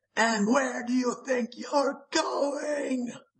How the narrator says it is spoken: the lurking shrieked

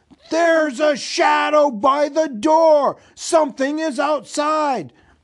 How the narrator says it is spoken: one of the goblins inside shouted

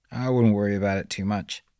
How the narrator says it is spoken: said Doug

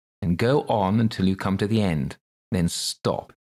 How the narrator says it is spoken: the king said gravely

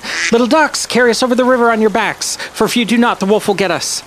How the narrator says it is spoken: Jan called out to them

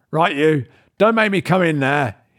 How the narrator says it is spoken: called out

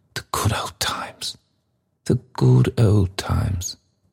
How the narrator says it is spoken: sighed the red-faced gentleman

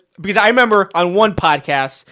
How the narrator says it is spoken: I yelled at this man on the television

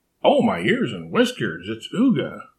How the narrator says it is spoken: Marmalade cried

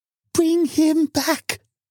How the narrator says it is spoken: cried the old woman

